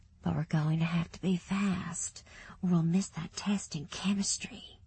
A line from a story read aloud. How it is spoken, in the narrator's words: whispered